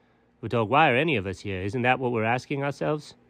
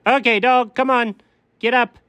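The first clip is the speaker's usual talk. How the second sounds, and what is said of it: Yelling loudly. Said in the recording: “why are you yelling”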